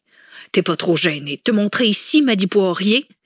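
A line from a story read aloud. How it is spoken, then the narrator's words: Loud woman's exclamation. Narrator (French): s'exclama d'une voix forte la grande blonde à la mâchoire carrée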